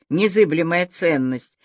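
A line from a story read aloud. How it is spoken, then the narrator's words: Laughing. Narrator (Russian): рассмеялась бы Аля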